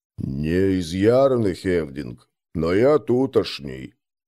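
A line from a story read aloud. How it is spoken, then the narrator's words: Low voice. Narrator (Russian): низким голосом ответил тот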